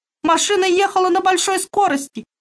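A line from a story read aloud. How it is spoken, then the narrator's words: Sobbing. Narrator (Russian): рыдала Тома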